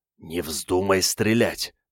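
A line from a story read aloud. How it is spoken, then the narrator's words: Hissing. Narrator (Russian): прошипел Игорь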